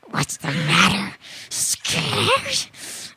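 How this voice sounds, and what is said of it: Scary voice. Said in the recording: “scary voice ... I'm going to be experimenting with scary voices”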